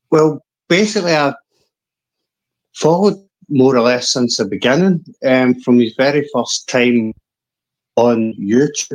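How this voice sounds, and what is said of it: Thick Scottish accent. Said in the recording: “This thick Scottish accent.”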